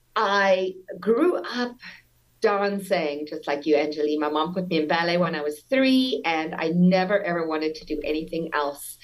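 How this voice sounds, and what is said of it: Slight Americanized South African accent. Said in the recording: “I'm born and raised in South Africa. You might detect a little accent, but that's already Americanized a lot.”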